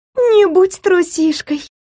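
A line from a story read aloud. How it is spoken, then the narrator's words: Giggling. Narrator (Russian): хихикнула Адель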